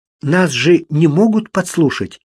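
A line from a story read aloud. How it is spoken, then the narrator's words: Frightened whisper. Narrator (Russian): испуганным шепотом спросила Констанс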